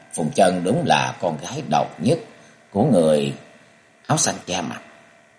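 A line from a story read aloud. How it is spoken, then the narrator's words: Muttered. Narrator (Vietnamese): chàng lẩm bẩm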